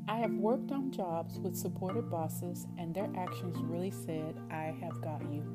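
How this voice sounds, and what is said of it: East Texas accent. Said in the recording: “my East Texas accent”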